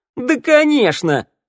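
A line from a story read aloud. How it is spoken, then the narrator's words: Caustic laughter. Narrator (Russian): Шныряла зашлась едким хохотом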